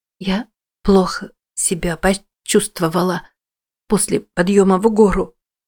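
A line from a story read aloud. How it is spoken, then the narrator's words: Forced out. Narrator (Russian): выдавила она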